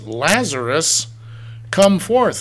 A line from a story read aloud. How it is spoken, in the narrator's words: he cried with a loud voice